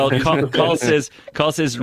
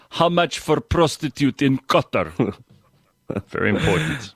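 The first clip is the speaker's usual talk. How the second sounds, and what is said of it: Put-on Russian accent. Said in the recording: “read this in a Russian accent.”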